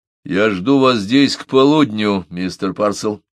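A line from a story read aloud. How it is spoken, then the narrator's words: Dry, repeated tone. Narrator (Russian): повторил Мессон все тем же сухим тоном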